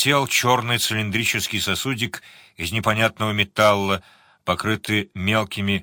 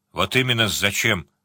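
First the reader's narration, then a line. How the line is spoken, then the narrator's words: Grumble. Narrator (Russian): пробурчал сварог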